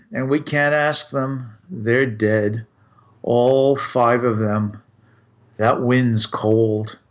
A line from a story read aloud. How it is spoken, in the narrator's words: Rossiter replied wearily